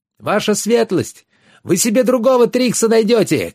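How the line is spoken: Shout. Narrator (Russian): крикнул Йен

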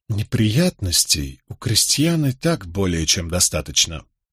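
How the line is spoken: Sudden angry hiss through teeth. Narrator (Russian): с внезапной злобой процедил Локвуд

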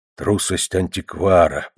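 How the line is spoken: Muttered. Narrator (Russian): пробормотал он

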